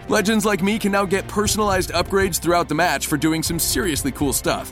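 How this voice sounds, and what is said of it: Announcer voice. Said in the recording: “It's my announcer voice.”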